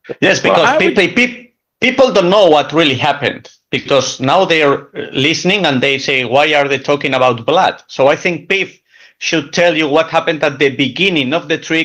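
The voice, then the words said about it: Valencian Spanish accent in English. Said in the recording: “Hondro's accent is not Balencian, but rather Transylvanian”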